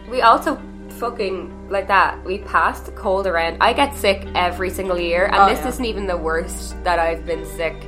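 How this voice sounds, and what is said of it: Very nasal, congested voice. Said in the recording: “I sound super nasally... I just have a head cold.”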